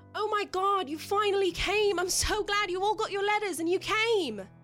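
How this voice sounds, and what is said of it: Yelling character voice. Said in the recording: “he's yelling”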